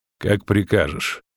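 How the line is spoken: Cold. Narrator (Russian): холодно ответил он

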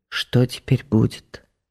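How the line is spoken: Quiet question. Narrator (Russian): тихо спросила

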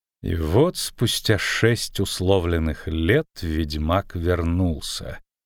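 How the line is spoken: Slow. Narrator (Russian): медленно проговорила она

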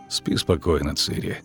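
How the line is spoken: Grumbling. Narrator (Russian): проворчал он

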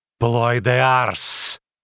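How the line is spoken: Hissing. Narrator (Russian): прошипела она

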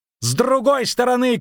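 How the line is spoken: Shouted. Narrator (Russian): крикнул Дайнти

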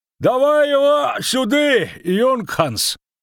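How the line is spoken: Shouted from a distance. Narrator (Russian): крикнул один из тех, что стояли на дороге дальше

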